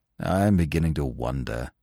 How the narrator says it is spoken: said Eustace gloomily

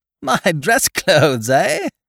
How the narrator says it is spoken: laughed genially

